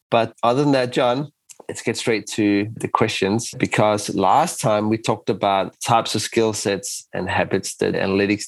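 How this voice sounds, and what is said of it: Voice affected by a cold. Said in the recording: “you might hear that my voice is a bit different... we have lots of colds going around and I'm the lucky recipient of it”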